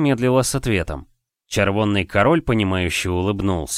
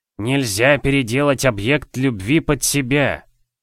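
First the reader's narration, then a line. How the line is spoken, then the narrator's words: Old man's lisping whisper. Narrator (Russian): продолжал червонный король со старческим пришептыванием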